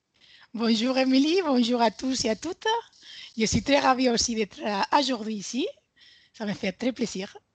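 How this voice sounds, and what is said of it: Spanish accent speaking French. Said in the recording (French): “est une Espagnole ... son accent vraiment trop craquant”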